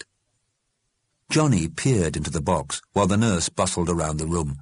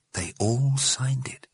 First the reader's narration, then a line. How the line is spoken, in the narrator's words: he said quietly